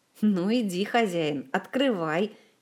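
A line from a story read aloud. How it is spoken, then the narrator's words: Giggling. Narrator (Russian): хихикнул Жак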